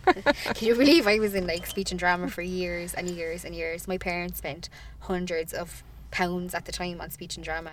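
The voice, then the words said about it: Twangy Irish Cork accent. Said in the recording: “from the accent ... you tell straight away that you're from Cork ... you're twangy ... I am twangy”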